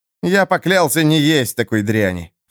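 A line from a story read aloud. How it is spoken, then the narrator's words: Scornful snort. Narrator (Russian): фыркнул Эрвин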